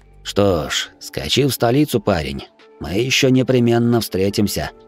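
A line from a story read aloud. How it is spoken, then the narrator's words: Muttered. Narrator (Russian): пробормотал он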